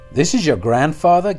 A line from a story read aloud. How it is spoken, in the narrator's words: gasped Daniel